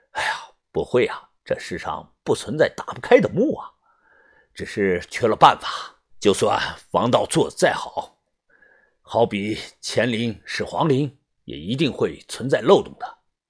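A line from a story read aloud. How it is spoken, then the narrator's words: Muttering to himself. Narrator (Chinese): 田三九喃喃自语地说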